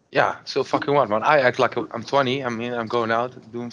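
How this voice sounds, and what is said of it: Foreign accent, described as sexy. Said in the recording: “you have a sexy accent”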